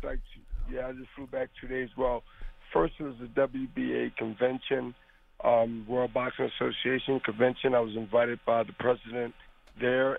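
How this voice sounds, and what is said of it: Cracky, hoarse recovering voice. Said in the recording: “I'm recovering, so my voice sounds kind of cracky”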